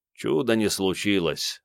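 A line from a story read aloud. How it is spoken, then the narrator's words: Gloomy. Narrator (Russian): мрачно заметил Накнир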